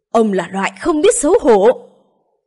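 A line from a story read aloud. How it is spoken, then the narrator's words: Elder's loud shout. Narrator (Vietnamese): Hàn Thạch trưởng lão nhảy lên hét lớn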